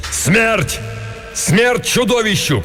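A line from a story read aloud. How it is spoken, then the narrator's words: Shouted. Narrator (Russian): крикнул Беарвальд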